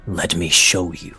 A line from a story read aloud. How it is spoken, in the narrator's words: Niadon rumbles to you